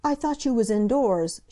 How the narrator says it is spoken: she cried

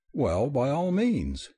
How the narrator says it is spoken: he answered cheerfully

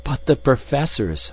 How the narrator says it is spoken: I cried in consternation

